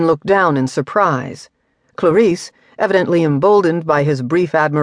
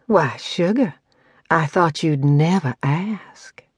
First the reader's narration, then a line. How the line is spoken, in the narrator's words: purred